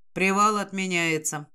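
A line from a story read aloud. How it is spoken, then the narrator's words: Gloomy tone. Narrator (Russian): мрачным тоном сообщает Нейт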